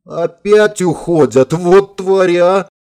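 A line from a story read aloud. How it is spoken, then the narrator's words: Indignant howl. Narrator (Russian): возмущенно взвыла Линда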